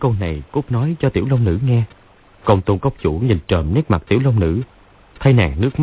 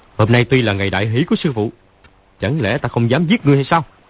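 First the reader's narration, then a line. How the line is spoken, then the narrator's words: Shouting. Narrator (Vietnamese): Lão quát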